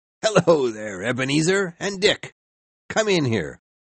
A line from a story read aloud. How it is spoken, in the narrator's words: In a loud, cheerful voice, the old man said